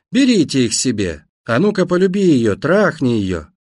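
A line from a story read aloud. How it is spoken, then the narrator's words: Drunken laughing shouts. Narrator (Russian): Пьяные немцы хохотали, кричали заключенным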